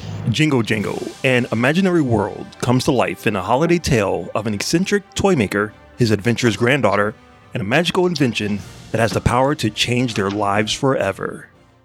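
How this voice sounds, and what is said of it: Announcer-style radio voice. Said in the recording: “Read it in your best radio voice.”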